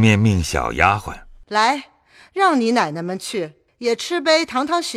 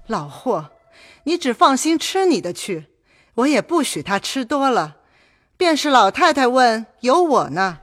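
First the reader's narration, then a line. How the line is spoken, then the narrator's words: Laughing. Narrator (Chinese): 薛姨妈笑道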